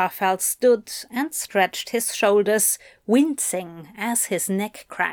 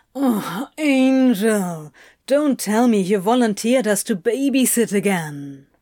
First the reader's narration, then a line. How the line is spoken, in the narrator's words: Crowley groaned